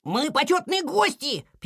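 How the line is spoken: Squeaking. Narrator (Russian): пищали лемминги

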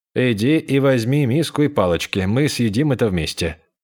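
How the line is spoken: Sighing. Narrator (Russian): Он вздохнул и сказал

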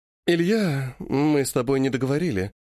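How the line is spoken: Purred. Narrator (Russian): промурлыкала

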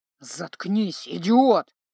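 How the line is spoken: Hissing. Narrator (Russian): прошипел Павоне

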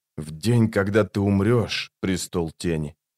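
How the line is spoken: Quiet. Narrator (Russian): тихо сказал он

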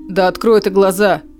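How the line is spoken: Growling. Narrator (Russian): прорычал Эдион

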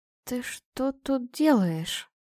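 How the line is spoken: Hoarse mutter. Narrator (Russian): пробормотала сипло

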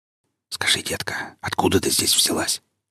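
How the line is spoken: Whisper in ear. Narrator (Russian): шепнул ей на ухо Молич

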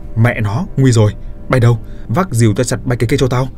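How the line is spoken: Loud shout. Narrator (Vietnamese): quát lớn

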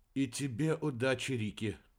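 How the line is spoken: Whisper. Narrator (Russian): прошептал Дебер

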